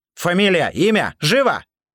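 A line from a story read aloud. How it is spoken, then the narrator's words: Very loud shout. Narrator (Russian): Кир крикнул так громко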